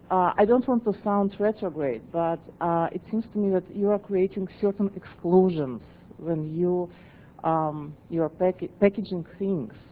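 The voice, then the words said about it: Speaks with a noticeable accent. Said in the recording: “It's probably my accent, too.”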